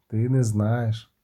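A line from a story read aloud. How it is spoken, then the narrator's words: Sad, smiling tone. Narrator (Ukrainian): посміхнувся сумно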